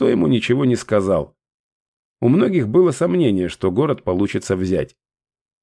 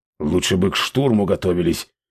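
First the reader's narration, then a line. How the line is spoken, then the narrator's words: Grumbling. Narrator (Russian): проворчал вождь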